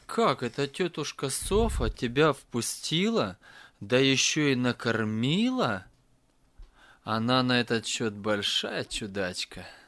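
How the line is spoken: Laughing father. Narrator (Russian): отец впервые после смерти Нелли рассмеялся и сказал

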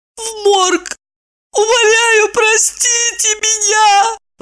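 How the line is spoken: Sudden wailing scream. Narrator (Russian): Вдруг завопила она

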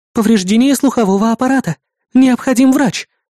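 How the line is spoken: Muffled exclamation. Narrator (Russian): воскликнула Эрис как будто через стенку

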